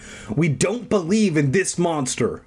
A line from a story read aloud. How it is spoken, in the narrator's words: I shouted